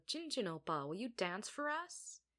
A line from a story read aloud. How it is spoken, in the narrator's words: Jinu laughed